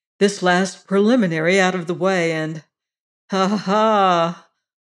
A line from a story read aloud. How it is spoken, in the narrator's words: Oleron chuckled